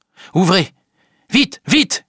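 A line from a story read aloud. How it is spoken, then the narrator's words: Shouted. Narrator (French): crie Kate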